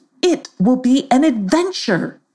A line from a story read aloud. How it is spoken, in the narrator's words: he exclaimed